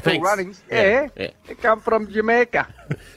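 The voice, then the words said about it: Put-on accent. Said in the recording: “Don't do the accent.”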